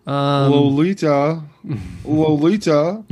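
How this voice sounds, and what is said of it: Imitates another person's voice. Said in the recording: “That's my James Mason impression”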